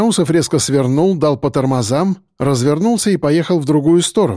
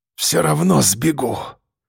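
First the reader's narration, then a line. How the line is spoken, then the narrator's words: Angry defiant rasp. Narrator (Russian): прохрипел он с гневом, словно революционер на баррикадах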